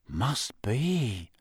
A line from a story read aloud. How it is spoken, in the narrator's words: said Ron, in a low, awed voice